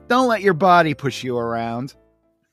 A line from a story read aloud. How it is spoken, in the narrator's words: yells to him